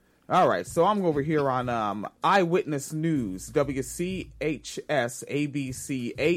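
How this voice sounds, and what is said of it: Usual voice. Nothing is said of it.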